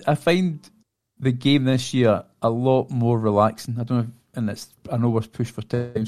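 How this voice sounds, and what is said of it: Noticeable regional accent. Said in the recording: “It's this accent”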